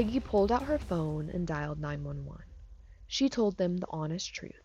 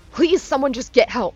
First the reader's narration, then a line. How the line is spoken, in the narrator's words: Keith shouted